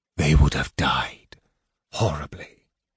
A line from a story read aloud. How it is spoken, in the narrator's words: the mage whispered